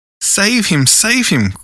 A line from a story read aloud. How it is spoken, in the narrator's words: cried Wendy, looking with horror